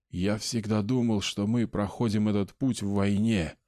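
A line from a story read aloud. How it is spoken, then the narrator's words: Whisper. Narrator (Russian): сказал он голосом, который был просто шепотом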